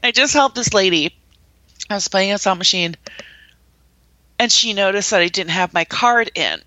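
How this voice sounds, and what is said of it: Usual voice. Nothing is said of it.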